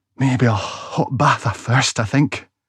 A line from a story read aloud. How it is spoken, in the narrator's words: gasped through teeth, which were starting to chatter uncontrollably